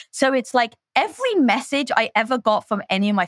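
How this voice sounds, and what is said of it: Usual voice. Nothing is said of it.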